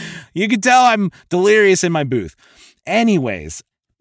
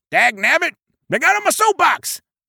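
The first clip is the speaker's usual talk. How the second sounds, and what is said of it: High-pitched comic character voice. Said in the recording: “it's the high-pitched character voice.”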